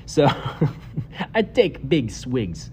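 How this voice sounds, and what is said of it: Unclear put-on accent. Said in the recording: “I don't even know what kind of accent that was.”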